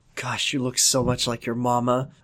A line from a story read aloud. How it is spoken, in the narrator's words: I whisper to Emily